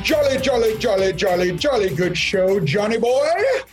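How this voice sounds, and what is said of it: Poor put-on British accent. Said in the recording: “a little British thing going on there ... That was an attempt ... my accent is terrible”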